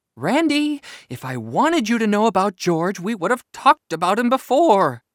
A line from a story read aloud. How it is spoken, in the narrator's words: said Mom sharply